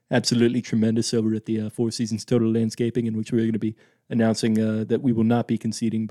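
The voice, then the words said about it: Imitates another person's voice. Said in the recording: “my Trump impression ... maybe the most tremendous Trump impression that you have ever heard”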